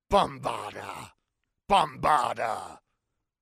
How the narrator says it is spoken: snarled

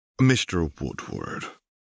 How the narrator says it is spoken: sighed, sounding as if he were trying to push away a bad memory

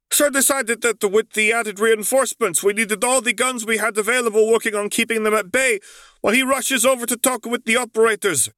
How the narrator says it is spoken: Tyrion continued, no longer yelling

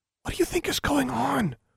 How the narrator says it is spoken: whispered Anna

